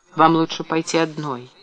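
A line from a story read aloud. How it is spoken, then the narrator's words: Gentle. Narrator (Russian): мягко сказал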